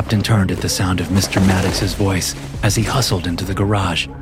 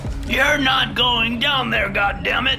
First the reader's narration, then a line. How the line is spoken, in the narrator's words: shouted